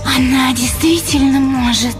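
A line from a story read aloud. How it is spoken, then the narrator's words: Tense, hissing woman's voice. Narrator (Russian): спросила блондинка странно напряженным и свистящим голосом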